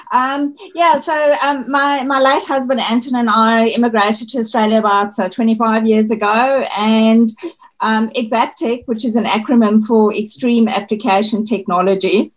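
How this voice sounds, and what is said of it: Slight South African accent. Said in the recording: “I hear a bit of a hint of an accent there as well ... I'm actually South African ... a part of the accent that I still have is that I speak Afrikaans at home”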